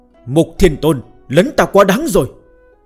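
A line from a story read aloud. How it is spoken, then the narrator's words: Sudden fury. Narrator (Vietnamese): Hạo Thiên Đế đột nhiên giận dữ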